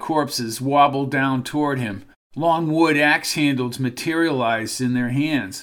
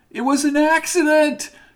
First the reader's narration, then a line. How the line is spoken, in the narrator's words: yelled Rita